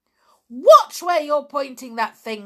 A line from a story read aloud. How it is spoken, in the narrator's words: screamed Amber